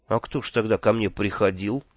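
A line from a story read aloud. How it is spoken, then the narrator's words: Miserable question. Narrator (Russian): несчастным голосом спросил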